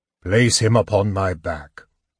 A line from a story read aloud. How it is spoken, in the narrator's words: the centaur said coolly